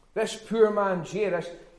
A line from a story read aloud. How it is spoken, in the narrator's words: he cried